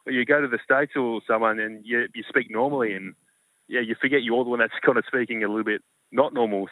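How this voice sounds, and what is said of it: Australian accent. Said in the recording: “everyone seems to love the Australian accent, but it's just kind of, you forget that you're the one with the accent”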